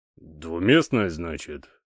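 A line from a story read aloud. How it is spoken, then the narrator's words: Thoughtful repetition. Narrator (Russian): задумчиво повторил мастер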